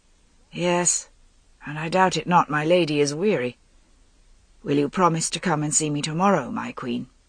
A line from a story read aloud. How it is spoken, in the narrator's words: his voice sounded so calm